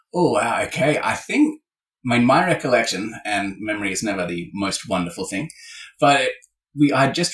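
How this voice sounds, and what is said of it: Australian accent. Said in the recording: “The accent is incoming.”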